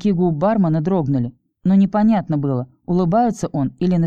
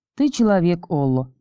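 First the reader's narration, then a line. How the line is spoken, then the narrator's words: Grateful weary sigh. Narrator (Russian): благодарно вздохнула ведьма, словно не способная ни на что большее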